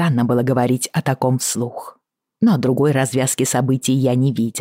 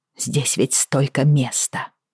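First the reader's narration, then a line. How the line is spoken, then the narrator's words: Muttered. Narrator (Russian): пробормотала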